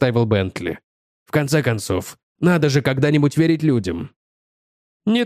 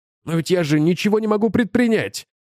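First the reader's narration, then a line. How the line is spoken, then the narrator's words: Shouting. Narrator (Russian): закричал Бентли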